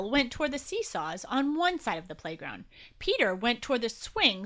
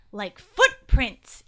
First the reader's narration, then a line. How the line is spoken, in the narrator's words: exclaimed Will